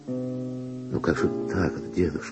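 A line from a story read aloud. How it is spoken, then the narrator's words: Gentle objection. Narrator (Russian): мягко возразила Вера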